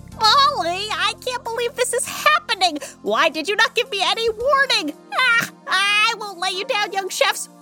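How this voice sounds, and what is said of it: Excited yelling. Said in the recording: “Why am I yelling? ... Why are you yelling?”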